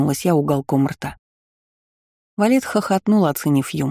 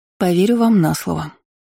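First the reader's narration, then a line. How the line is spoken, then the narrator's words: Sigh. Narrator (Russian): вздохнула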